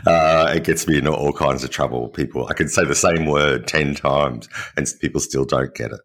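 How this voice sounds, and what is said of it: Australian accent. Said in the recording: “that's my biggest problem, is my Australian accent.”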